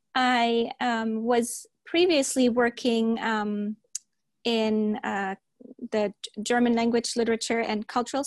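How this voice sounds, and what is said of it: Non-native English accent. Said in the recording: “If you hear an accent, just laugh about it... I'm pronouncing some words a little different”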